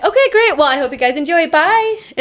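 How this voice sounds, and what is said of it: High-pitched customer service voice. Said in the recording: “customer service voice ... It's always the high pitch.”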